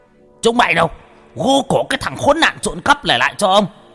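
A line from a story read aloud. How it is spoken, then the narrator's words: Hissing sharply. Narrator (Vietnamese): lão Tú đã rít lên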